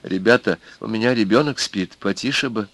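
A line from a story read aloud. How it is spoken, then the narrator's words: Quiet request. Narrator (Russian): какая-то женщина крестьянского облика высунулась и попросила негромко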